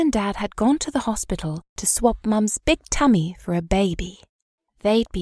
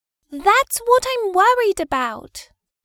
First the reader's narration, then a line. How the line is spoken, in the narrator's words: cried Maggie